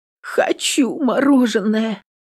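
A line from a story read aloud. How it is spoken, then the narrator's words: Tearful whisper. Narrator (Russian): Шепчу сквозь слезы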